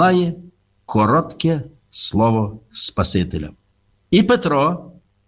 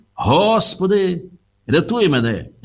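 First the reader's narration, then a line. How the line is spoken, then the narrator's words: Shout. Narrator (Ukrainian): закричав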